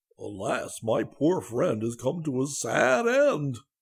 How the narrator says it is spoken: the bear uttered a groan and exclaimed

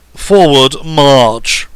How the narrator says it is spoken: roared Tintit

